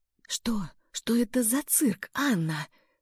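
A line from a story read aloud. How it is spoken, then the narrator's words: Barely audible whisper. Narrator (Russian): прошептал он, и его губы едва шевелились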